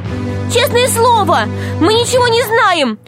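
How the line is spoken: Shouting. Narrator (Russian): закричала Алиса

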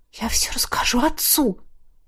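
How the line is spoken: Breathless exhale. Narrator (Russian): выдохнула

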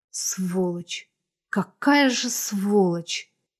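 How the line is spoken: Despairing exhale. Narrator (Russian): С отчаянием выдохнула она

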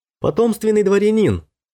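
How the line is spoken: Shouting. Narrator (Russian): закричал

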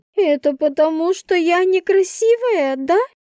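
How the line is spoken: Sobbing. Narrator (Russian): всхлипнула Инна

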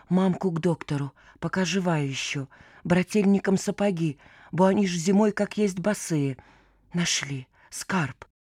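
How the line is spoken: Boy whispering deliriously. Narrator (Russian): мальчишка шептал, как в бреду

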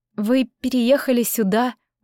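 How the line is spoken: Strained forced words. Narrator (Russian): удалось мне выдавить из себя

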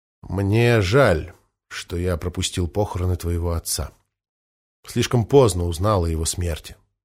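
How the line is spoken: Quiet. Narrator (Russian): тихо произнес

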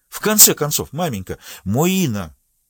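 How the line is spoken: Strained exclamation. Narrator (Russian): воскликнула госпожа де Глемон, делая усилия над собой

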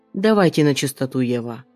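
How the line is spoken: Icy cold tone. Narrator (Russian): произносит ледяным тоном

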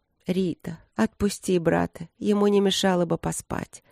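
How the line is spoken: Gentle request. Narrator (Russian): попросила она ласково

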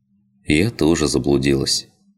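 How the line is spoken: Sad. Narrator (Russian): печально произнесла Лина

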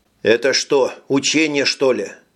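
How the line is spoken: Plain. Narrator (Russian): спросил Джим

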